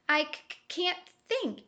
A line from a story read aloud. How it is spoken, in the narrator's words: sputtered